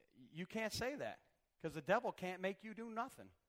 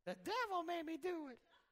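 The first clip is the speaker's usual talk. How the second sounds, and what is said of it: Imitates another person's voice. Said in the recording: “That's a pretty good imitation right there, impersonation.”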